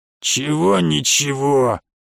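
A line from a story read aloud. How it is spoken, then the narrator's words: Creaky grumble. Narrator (Russian): проворчал скрипучий голос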